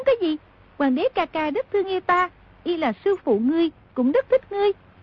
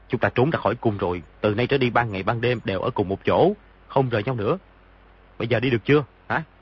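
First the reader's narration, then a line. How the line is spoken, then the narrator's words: Lowered, cautious voice. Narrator (Vietnamese): Lúc ấy quả thực không thể thân mật với nàng, nhưng cũng không dám đắc tội với nàng, liền hạ giọng nói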